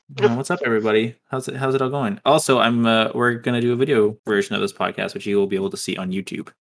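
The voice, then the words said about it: Flat monotone speaking voice. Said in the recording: “I'm very monotone today, I'm noticing.”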